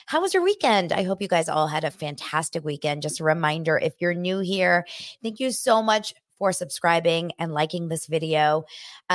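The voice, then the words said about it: Strained, struggling voice. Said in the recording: “my voice is struggling. It's struggling”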